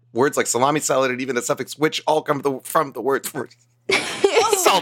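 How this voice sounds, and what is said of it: Running out of breath. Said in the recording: “Ran out of breath on the last one.”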